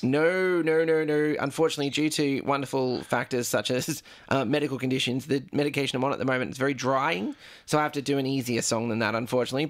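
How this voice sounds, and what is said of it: Worn-out, strained voice. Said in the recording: “as you can all listen, my voice is dead already because of everything tonight”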